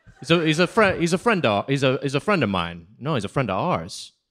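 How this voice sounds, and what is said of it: Put-on Maine accent. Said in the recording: “You sounded like a guy from Maine, though. I think it slipped in.”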